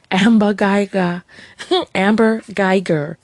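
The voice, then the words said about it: Put-on New York accent. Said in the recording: “You hear the New York accent?”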